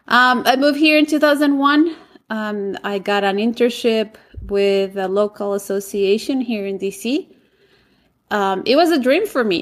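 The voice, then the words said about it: Colombian-accented English. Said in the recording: “Bogota, Colombia, where I'm from. And yes, that's where my accent is from.”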